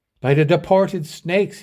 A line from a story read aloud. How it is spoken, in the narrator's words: exclaimed